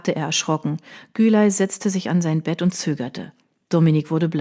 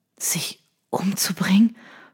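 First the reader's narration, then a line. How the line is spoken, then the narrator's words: Stunned whisper. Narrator (German): flüsterte er fassungslos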